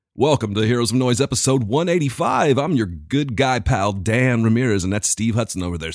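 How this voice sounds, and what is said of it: Exaggerated radio announcer voice. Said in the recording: “That's such a good radio voice.”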